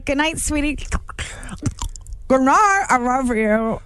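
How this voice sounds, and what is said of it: Talking as if wearing mouth guard. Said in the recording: “best mouth guard impression ... that was so good”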